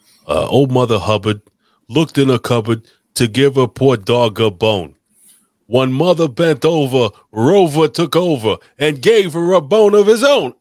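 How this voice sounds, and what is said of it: Imitates another person's voice. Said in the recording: “Do the Dice Clay voice ... He's stuck in Vito mode.”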